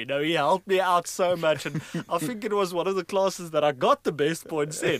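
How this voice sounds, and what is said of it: Afrikaans-accented English. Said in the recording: “I think with my accent ... my poor Afrikaans soul”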